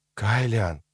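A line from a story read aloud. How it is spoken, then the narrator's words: Quiet. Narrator (Russian): сказала она тихо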